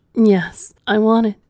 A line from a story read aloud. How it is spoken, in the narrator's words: Ella screamed back at him